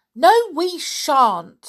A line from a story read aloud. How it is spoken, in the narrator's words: shouted Jack, determined to make the deaf old man hear